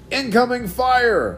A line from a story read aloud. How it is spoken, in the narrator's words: Omega yelled